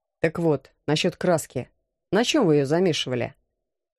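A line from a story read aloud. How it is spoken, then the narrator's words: Plain. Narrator (Russian): спросил Алекс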